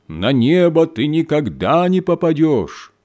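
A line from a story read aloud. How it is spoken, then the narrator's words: Loud shout down chimney. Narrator (Russian): студент, сидящий на крыше, громким голосом прокричал в трубу камина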